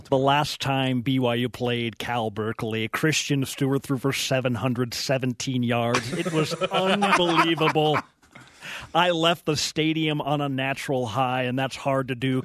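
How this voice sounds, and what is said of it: Imitates another person's voice. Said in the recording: “You do my good friend Bill Walton. ... Can you do a little Bill? ... Any good impersonation”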